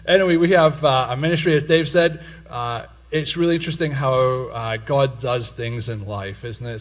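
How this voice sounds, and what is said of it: Mixed Scottish and Pennsylvanian accent. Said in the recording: “Still got a wee bit of my brogue I could put on ... semi-Pennsylvanian accent ... now it's a mix”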